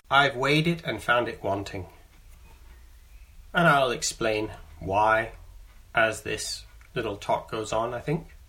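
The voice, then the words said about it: Canadian accent with English influence. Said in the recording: “you can hear my accent. I'm a Canadian who, when I was 19, I moved to the UK, to England. And I've been living in England now for 25 years.”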